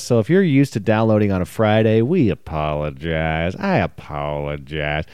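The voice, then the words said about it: Deep South rental car agent voice. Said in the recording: “my impression of a rental car agent in the Deep South”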